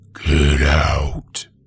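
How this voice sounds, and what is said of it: Low, menacing voice. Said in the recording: “spoke in a low voice”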